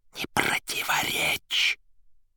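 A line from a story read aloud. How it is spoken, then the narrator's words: Mouthed whisper. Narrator (Russian): одними губами шепнул Берлиоз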